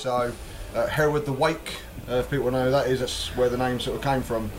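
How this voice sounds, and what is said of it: Essex English accent. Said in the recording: “I'm originally from Essex, hence the beautiful sarcastic accent you can hear before you today.”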